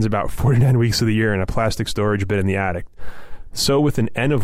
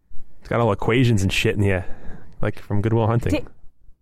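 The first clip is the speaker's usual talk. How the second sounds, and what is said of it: Bad put-on Boston accent. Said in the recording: “don't do the bad Boston accent”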